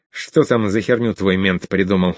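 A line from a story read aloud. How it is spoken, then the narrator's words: Angry question. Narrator (Russian): зло спросил он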